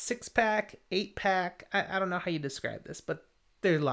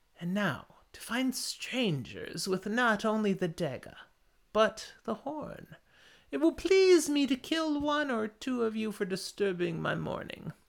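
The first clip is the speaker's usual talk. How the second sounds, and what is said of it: Character voice, vaguely British accent. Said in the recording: “his accent's horribly off, considering Shan Chen have more of a southern drawl than a... Going your immediate attempt of fantasy into a vaguely British.”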